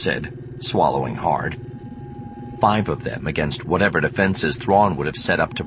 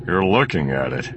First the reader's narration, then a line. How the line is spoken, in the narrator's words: Solo grunted